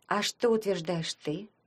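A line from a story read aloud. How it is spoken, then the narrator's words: Quiet question. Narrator (Russian): спросила Таня негромко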